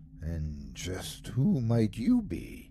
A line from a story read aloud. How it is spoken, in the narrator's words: he asked softly